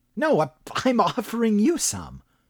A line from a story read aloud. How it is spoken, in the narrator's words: chuckled Alonzo Moss